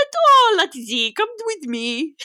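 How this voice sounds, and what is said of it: Mixed-up put-on accents. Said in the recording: “That was a couple different accents. That was a couple different mixed into one.”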